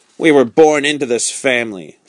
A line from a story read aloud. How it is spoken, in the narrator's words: said the Marquis sternly